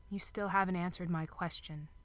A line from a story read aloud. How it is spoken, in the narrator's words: Crowley reminded him, smiling sadly